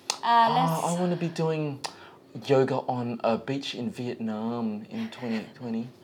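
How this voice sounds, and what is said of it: Impersonating young women tourists. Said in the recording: “your impersonation of these girls, it's pretty accurate. ... pretty bang on. ... mimic their voice”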